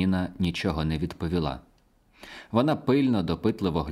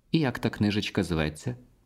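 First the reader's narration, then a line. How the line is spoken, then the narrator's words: Calm question. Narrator (Ukrainian): спокійно спитала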